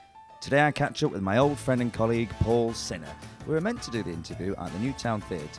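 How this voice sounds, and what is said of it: Croaky, hoarse voice. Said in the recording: “my voice is croaking more than a 60-a-day docker”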